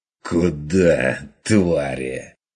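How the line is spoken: Fierce hiss. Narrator (Russian): Ожесточенно прошипел Ван Ален

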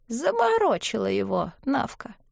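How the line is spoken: Indifferent. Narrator (Russian): сказала равнодушным голосом

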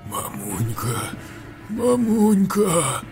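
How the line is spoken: Dying monster's mumble. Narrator (Russian): Бормотало чудище, испуская дух

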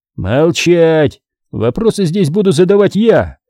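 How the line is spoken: Barked. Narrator (Russian): рявкнул Андрей

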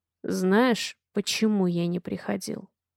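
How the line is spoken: Low dangerous question. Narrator (Russian): Опасным низким голосом спрашивает он

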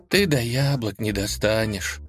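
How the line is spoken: Sad reply. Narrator (Russian): грустно ответила Лиза

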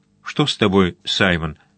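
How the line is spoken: Plain. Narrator (Russian): спросила Хелен

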